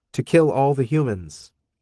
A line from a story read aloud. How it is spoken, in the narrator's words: I answered